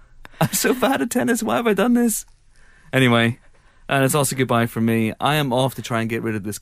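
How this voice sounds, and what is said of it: Congested voice from a cold. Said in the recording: “I don't know if you guys can hear it, but I have a cold.”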